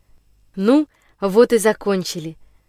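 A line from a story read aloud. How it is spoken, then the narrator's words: Joyful. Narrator (Russian): радостно произнес Андрюша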